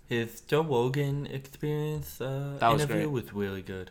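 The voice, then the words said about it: Imitates another person's voice. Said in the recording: “You should talk like that for the rest of the show ... the impression will get a little bit worse ... that's pretty good ... Tyson impersonations”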